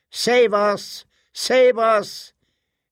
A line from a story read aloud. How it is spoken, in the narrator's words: the children cried out